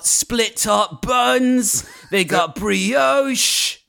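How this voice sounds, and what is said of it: Playful put-on accent. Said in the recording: “I did a fun accent”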